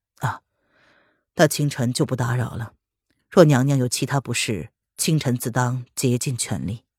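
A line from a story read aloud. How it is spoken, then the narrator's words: Faint smile, casual. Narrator (Chinese): 林渊嘴角挂着若有似无的笑意，淡淡的寒暄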